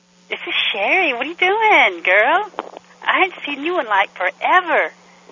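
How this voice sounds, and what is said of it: Man putting on a woman's voice. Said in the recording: “oh, that's a guy doing that voice? ... That's a guy doing the voice. ... this guy does good voices”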